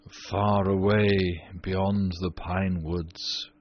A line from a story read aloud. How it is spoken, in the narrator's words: he answered, in a low, dreamy voice